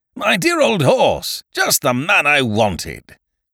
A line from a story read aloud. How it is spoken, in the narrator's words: cried